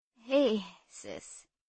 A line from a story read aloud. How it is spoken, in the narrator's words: said Uncle Joe faintly